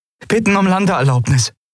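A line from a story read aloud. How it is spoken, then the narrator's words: Call. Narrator (German): rief Andriel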